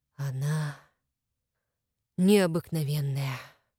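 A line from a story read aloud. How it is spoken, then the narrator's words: Breathless exhale. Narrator (Russian): выдохнул княжич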